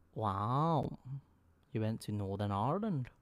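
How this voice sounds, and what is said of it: Poor attempt at Northern Irish accent. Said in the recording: “That was a really bad attempt for an accent ... That was fucking horrible.”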